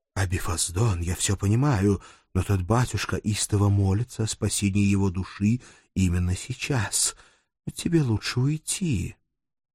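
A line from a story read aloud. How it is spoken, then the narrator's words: Sighing, soft whisper. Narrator (Russian): вздохнул, тихо прошептав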